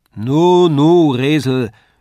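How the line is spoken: Calling from across room. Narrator (German): rief Herr Tendler von der anderen Wand

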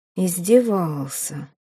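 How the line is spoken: Thoughtful mutter. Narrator (Russian): задумчиво пробормотал Местина

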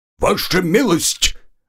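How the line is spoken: Barked. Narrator (Russian): рявкнул он

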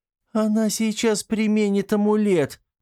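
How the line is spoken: Frightened shriek. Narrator (Russian): взвизгнула Мила и в страхе

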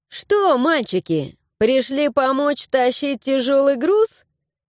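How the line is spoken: Chuckling. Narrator (Russian): Хохотнула

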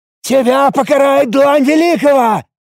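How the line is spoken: Shout cut off. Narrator (Russian): Попытался выкрикнуть старший жрец, но был прерван

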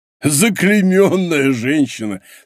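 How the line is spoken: Laughing. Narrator (Russian): сказал, захохотав, Портос

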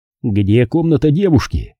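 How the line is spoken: Plain. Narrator (Russian): спросил Шейн Пэддике

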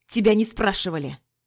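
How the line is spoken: Growled. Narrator (Russian): Прорычал Пижон

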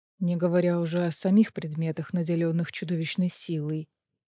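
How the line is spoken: Gloomy. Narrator (Russian): мрачно добавил Азриэль

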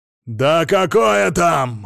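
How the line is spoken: Roar. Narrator (Russian): взревел Сила Игнатьевич

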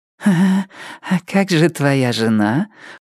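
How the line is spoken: Cooing woman. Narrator (Russian): проворковала женщина

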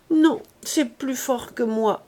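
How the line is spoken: Stammered. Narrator (French): balbutia-t-elle

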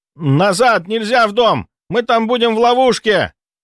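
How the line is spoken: Shouted. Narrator (Russian): закричал кто-то

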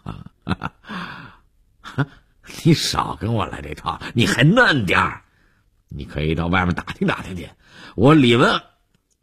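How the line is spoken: Smiling. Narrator (Chinese): 李文海 又笑着说

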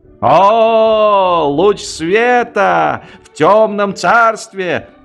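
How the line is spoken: Volunteer soldier shouting. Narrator (Russian): крикнул вольно определяющийся

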